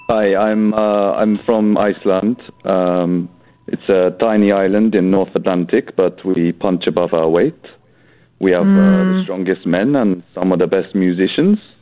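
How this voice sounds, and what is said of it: Put-on Icelandic accent. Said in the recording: “Why are you doing that voice then? ... I don't think you're from Iceland.”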